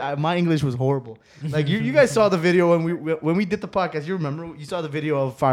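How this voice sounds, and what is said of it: Usual voice. Nothing is said of it.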